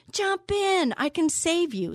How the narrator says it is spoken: The fellow in the motorboat shouted

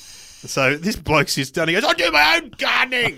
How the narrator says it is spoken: Like yelling, getting really angry

